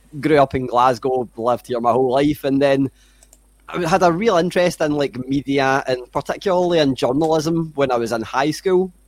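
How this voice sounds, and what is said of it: Scottish Glasgow accent. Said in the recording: “people can hear my voice, they can hear my accent. I'm pretty Scottish. So I'm from Glasgow”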